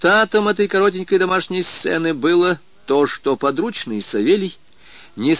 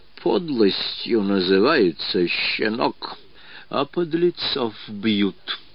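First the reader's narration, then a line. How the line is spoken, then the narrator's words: Furious whisper. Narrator (Russian): Смагин с искаженным бешенством лицом прошептал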